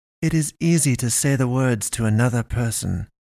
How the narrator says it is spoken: the pastress hissed

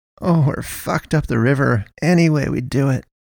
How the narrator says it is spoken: moaned

